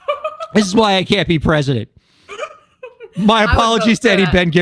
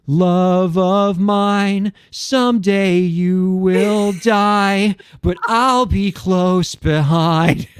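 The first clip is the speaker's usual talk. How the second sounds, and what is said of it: Imitates another person's singing voice. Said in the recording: “my impression”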